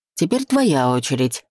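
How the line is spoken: Snapping, interrupting. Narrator (Russian): перебив, огрызнулся Денис

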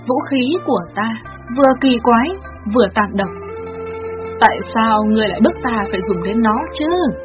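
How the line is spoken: Sighing, murmuring woman. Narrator (Vietnamese): Tỳ bà công chúa nàng thở dài rồi lẩm nhẩm

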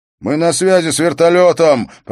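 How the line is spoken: Shouted over noise. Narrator (Russian): прокричал один из них сквозь шум

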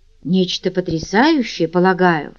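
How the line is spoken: Grim joking tone. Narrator (Russian): мрачно пошутил Паркер

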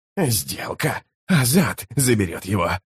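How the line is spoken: Hoarse, shaken priest. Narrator (Russian): прохрипел верховный жрец, который все еще шатался после встречи с Таннойским чародейством

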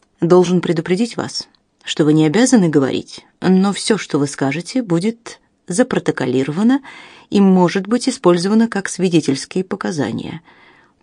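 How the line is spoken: Calm. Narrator (Russian): произнес Робинсон спокойно

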